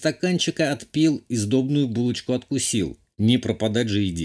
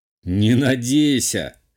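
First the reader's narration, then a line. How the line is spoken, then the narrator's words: Smirking grunt. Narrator (Russian): хмыкнул я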